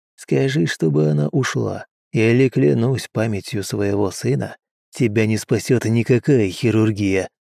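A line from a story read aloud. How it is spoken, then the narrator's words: Quiet. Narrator (Russian): тихо проговорил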